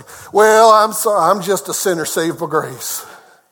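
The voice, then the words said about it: Put-on Southern US accent. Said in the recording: “I do this with a southern accent”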